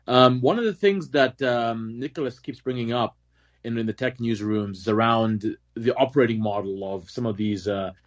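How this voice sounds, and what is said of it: African speaker with American-sounding accent. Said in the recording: “I'm from Africa, but I sound very American”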